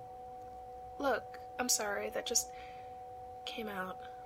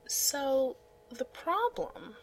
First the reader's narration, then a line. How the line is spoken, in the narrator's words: he says slowly